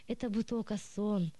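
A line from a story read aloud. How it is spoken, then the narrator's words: Sigh. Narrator (Russian): вздохнул он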